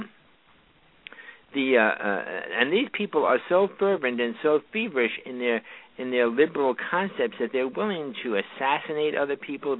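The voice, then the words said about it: New York accent. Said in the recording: “I'm a New Yorker, you know, that accent slips through there all the time.”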